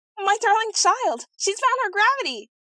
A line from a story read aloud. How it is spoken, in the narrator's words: her old nurse uttered a yell of delight, screaming